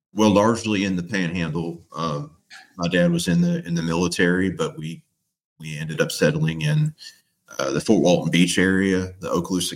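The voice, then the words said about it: North Florida accent. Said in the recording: “the best accent and voice ... where you get an accent like this”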